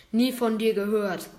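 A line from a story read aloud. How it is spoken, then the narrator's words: Bear's roar. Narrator (German): brüllt der Bär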